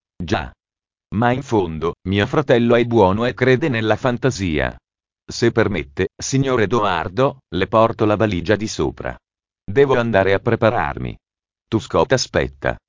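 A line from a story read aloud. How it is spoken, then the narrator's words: Said laughing. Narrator (Italian): Henry, ridendo, disse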